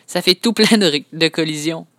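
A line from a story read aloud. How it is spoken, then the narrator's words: Laughing. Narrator (French): dit Léane en riant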